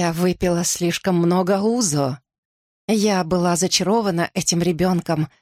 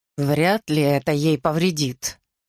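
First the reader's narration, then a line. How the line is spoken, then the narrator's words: Flat, expressionless voice. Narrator (Russian): сказал папа невыразительным голосом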